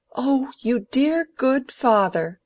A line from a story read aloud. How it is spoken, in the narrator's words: cried Mary